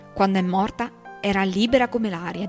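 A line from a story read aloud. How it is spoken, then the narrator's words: Plain. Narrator (Italian): disse Atticus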